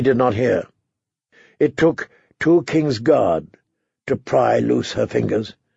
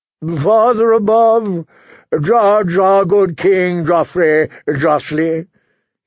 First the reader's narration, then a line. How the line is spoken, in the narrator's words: he intoned, beginning the prayer for the dead